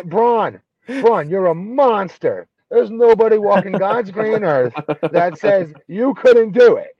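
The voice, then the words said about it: Cartoonish impression of a wrestler. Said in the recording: “your Braun impression sound like Cartman from South Park? ... It sounds like the guy from Simpsons, actually ... Barney ... Town drunk. It's more like him.”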